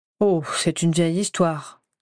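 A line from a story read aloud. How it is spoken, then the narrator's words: Plain. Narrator (French): me répondit-il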